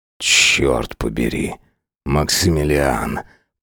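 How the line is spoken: Growl. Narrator (Russian): прорычал Сайлос

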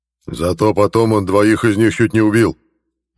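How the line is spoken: Leader barking. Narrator (Russian): рявкнул вожак

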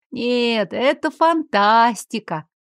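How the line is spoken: Gentle drawl. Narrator (Russian): ласково протянула я

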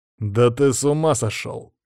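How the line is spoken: Growling. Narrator (Russian): прорычал я

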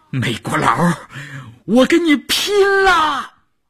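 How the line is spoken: Desperate shout. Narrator (Chinese): 少月的喊声

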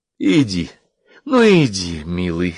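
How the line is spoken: Pained, passionate moan. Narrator (Russian): с болью и страстью стонал агент Ромул

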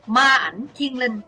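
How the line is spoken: Shout. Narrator (Vietnamese): Kiếm khách Phạm Thiên Hoa quát

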